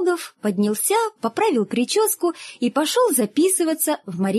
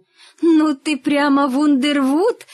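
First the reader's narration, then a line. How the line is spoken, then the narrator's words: Old woman laughing. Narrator (Russian): засмеялась старушка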